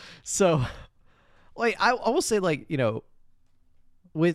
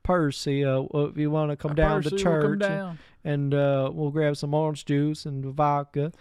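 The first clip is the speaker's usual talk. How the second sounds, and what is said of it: Very deep, heavy Southern accent. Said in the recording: “He is doing like a very deep, heavy Southern accent ... it's very strong ... it's a very like strong Southern accent”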